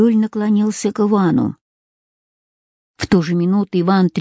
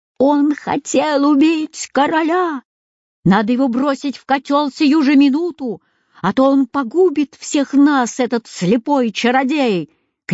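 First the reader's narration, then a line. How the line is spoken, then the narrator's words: Crowd shouting. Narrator (Russian): кричали они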